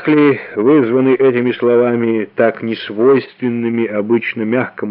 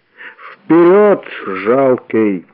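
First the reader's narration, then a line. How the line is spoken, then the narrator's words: Booming voice. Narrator (Russian): прогремел Ридер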